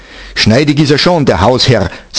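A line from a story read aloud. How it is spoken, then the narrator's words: Plain. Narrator (German): sagte eine Mieterin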